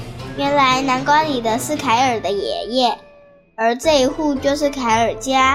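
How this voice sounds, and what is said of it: Usual voice. Nothing is said of it.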